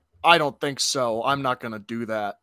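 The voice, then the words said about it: Gruff, monotone, stilted character impression. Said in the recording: “Good House impression ... gruff up your voice a little bit and speak in a very monotone voice ... Kind of stilted”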